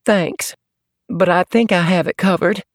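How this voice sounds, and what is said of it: Slight southern accent. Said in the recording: “Dan detected a slight southern accent.”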